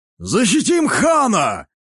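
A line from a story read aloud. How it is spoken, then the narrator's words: Warrior shouting. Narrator (Russian): закричал один из воинов Карасала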